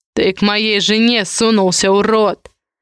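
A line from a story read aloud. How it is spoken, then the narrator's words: Angry growl. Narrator (Russian): рычал обозленный Адамиди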